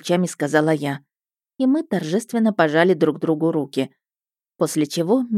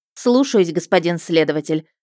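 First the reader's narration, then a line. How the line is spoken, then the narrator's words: Barked. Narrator (Russian): рявкнула я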